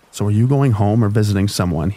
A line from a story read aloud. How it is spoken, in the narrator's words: he asked